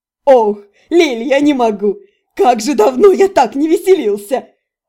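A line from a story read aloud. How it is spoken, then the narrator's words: Forced out through laughter. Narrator (Russian): выдавил сквозь смех Реймир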